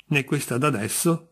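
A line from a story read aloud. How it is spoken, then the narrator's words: Plain. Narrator (Italian): rispose il D'Andrea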